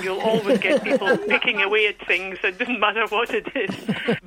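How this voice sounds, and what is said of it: Shetland accent. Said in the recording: “a real authentic Shetland voice ... my accent”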